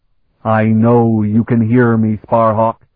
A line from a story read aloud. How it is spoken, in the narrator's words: Zelasta said in a loud voice, speaking in Alenic